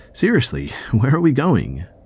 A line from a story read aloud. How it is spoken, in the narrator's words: I asked again, laughing uncomfortably